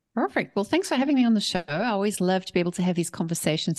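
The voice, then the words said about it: South African accent. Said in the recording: “She is from South Africa, as you might be able to tell by her beautiful accent”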